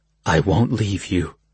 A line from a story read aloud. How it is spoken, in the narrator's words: he murmured